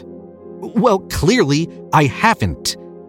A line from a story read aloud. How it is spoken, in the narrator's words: he snapped